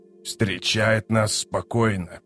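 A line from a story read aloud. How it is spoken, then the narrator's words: Mutter. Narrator (Russian): пробормотал Канник Тол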